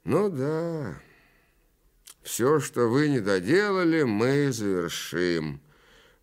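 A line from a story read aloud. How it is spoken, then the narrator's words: Knowing prompt. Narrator (Russian): понятливо подсказал он, как бы от имени внуков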